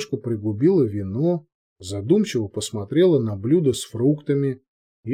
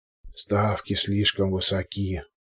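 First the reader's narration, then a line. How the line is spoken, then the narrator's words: Grumbled mutter. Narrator (Russian): буркнул Александр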